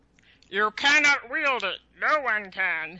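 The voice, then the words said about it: Impression of Aragorn. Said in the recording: “my Aragorn impression ... Are you making fun of Viggo?”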